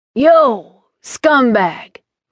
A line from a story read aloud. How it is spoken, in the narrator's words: Wraith yelled